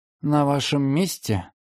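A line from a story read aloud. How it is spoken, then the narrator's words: Quiet. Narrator (Russian): тихо сказал помощник Уолтерс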